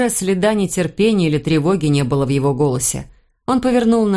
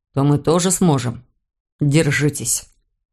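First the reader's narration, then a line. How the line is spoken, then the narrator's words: Calm. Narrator (Russian): спокойно заметил Блейк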